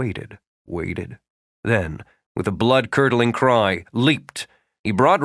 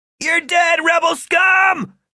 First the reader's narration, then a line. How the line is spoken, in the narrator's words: shouted when he managed to grab Rafe in a slippery headlock